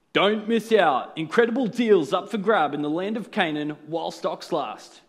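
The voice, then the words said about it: Mock newsreader announcer voice. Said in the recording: “put on my best newsreader voice”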